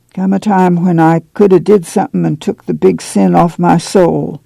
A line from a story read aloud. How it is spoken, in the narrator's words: Uncle John said sadly